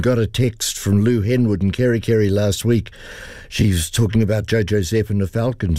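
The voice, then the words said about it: Croaky, hoarse voice. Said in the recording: “Apologies in advance for the croaky voice. I'm losing my voice very rapidly here”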